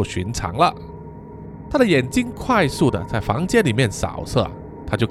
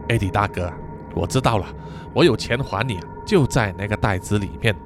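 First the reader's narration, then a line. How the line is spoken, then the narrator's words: Sigh, then blunt. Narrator (Chinese): 他就叹了一口气，然后直接说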